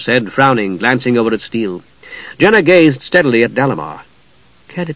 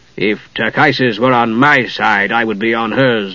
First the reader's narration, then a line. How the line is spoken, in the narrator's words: Dalimar replied bitterly